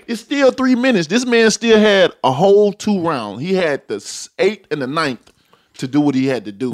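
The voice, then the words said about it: Southern Alabama accent. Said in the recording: “I hear the similar Tuscaloosa accent, which is it was a bugged out accent.”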